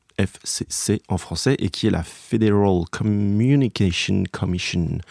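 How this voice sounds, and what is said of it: Weak put-on English accent. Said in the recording (French): “Est-ce que tu apprécies mon accent anglais ... il est pas ouf.”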